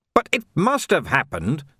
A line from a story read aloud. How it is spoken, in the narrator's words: snapped Vimes